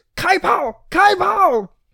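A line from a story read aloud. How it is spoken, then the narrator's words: Shouting. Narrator (Chinese): 大喊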